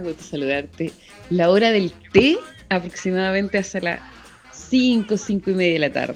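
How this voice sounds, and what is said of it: Polished radio-announcer voice. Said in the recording (Spanish): “Me encanta esa voz. Tiene una voz de locutora, oiga. Hermosa, hermosa.”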